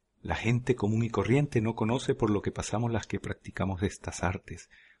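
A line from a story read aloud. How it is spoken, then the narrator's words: Whisper. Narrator (Spanish): susurró Darcy a Agatha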